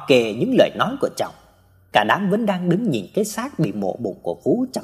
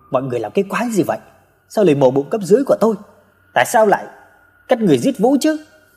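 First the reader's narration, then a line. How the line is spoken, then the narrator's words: Shouting while crying. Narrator (Vietnamese): vừa hét lên vừa khóc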